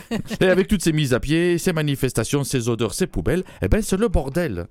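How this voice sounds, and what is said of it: Sing-song Toulouse accent, slightly masculine. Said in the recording (French): “drôle d'accent ... Toulouse ... C'est de là que vient ce superbe accent, chantonnant. Bon, un peu masculin”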